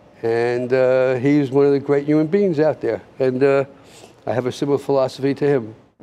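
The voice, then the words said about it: Slightly choked-up emotional voice. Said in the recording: “Sorry for a little sentiment, but I get a little choked up.”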